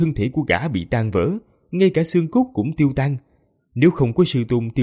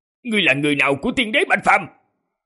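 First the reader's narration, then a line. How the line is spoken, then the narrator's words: Loud shout. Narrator (Vietnamese): Người áo đen lại hét lớn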